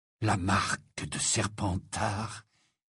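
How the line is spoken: Low voice. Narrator (French): dit-il à voix basse

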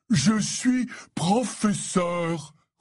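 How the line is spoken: Roared. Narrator (French): rugit-il

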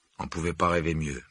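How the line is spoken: Muttered. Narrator (French): marmonna Harry

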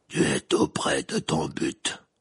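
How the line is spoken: Deep hoarse voice, creature. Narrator (French): dit alors la créature d'une voix grave et rauque

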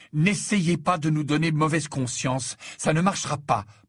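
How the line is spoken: Sharp protest. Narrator (French): protesta Harry d'un ton tranchant

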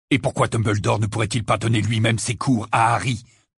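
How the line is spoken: Aggressive question. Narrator (French): demanda Sirius d'un ton agressif

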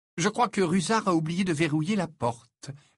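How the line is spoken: Cheerful. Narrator (French): répondit Harry d'un ton enjoué

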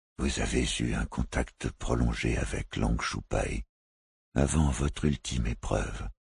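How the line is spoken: Gentle. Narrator (French): reprit-il doucement

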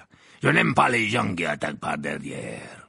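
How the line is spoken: Growled. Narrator (French): grogna-t-il

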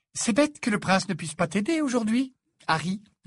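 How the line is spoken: Cheerful tone. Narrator (French): dit-elle d'un ton allègre

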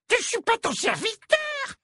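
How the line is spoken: Squeaked. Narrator (French): couina-t-il

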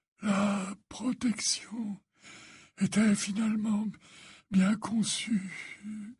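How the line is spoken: Faint stammering voice. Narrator (French): balbutia Dumbledore d'une voix éteinte

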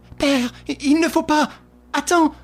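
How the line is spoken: Exclaiming. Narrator (French): s'écria Suzanne

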